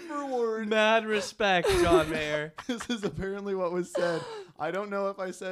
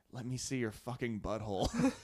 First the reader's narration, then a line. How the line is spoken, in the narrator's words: in the heat of the moment, John leaning into this girl's ear and whispering